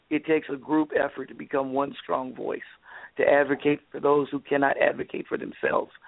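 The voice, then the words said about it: Hoarse voice. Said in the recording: “as you can tell, I'm very hoarse because I've been out politicking and networking for the last week”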